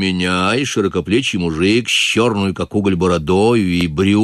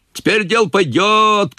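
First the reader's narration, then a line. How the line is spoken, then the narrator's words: Men shouting. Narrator (Russian): кричали мужики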